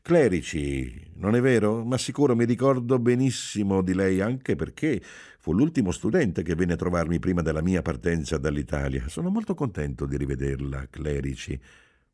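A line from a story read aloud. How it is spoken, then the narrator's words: Cordial yet indifferent. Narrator (Italian): Disse, in tono cordiale e al tempo stesso del tutto indifferente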